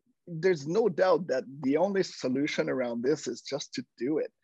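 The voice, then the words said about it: Slight foreign accent. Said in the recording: “I have a bit of an accent”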